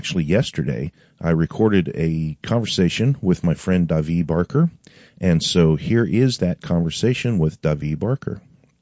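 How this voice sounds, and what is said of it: Congested, slightly off voice. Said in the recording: “if you can hear it in my voice... I'm fighting a sinus cold, so if my voice sounds a little off”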